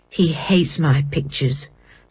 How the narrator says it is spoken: said Martin bitterly

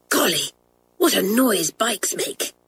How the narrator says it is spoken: whispered Janet

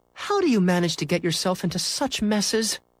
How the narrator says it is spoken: sighed

